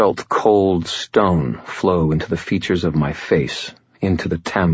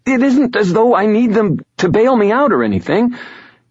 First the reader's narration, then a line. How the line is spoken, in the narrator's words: she sputtered